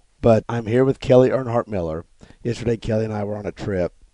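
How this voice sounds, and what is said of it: Sick, rough-sounding voice. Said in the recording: “I sound terrible. I feel great, but I sound terrible. ... somehow I caught something ... coming home, you sounded like that”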